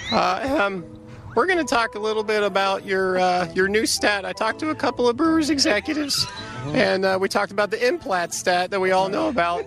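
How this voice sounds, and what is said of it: Impression of Tim Kurkjian. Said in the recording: “When Tim Dillard did it... in order to do the impersonation... A method impersonation”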